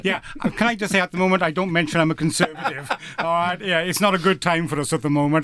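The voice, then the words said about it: Distinctive non-local accent. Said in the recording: “I'm not exactly a local. You can tell by my voice... So I'm distinctively got my voice”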